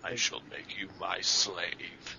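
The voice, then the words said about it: Weak impression of Unicron. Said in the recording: “You need to work on your Unicron impression, buddy.”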